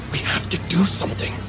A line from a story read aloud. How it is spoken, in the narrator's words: I whispered, my mouth bone dry